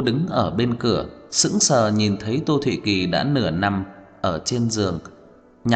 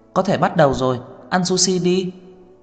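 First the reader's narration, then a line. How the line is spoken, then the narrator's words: Happy woman calling out. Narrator (Vietnamese): cô rất hài lòng mỉm cười, lập tức vui vẻ, vừa đi vừa kêu lên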